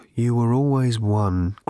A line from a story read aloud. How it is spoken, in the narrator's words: groaned the aged husk of the robot